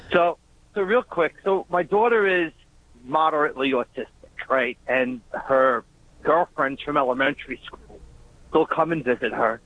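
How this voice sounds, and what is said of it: Long Island accent. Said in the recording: “We recognize that Long Island-esque accent.”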